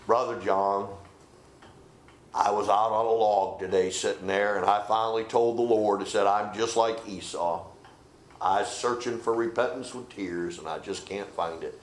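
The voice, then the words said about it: Deep country accent. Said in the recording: “he had this deep country accent”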